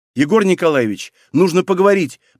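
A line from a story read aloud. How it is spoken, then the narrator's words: Nearly shouted. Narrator (Russian): почти выкрикнула она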